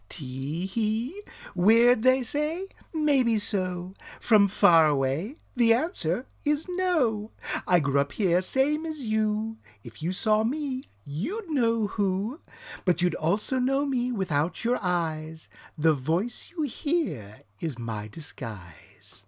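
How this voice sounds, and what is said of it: Weird disguised voice with strange accent. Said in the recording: “Such a weird voice... He had a weird accent. A foreigner for sure.”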